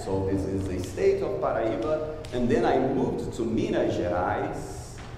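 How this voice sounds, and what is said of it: Strong foreign accent. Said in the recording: “I'm still the guy with a strong accent”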